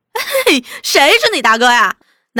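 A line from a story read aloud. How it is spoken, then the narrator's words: Crowd laughing. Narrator (Chinese): 大家哄笑着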